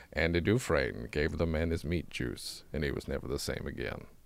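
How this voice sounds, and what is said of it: Morgan Freeman impression. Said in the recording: “what sounds like me starting to do a Morgan Freeman impression.”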